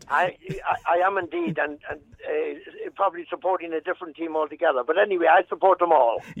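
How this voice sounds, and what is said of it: Southern Irish accent. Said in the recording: “going by your accent, you probably couldn't care less because you're a ... Southerner”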